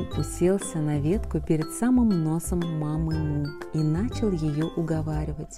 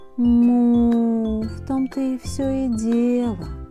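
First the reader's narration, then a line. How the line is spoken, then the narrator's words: Sighing mother. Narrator (Russian): вздохнула мама Му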